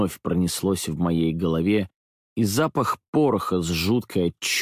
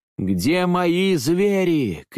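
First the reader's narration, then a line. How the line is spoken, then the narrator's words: Frantic, maddened shout. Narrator (Russian): кричал я, ослепленный и безвольный перед собственным безумием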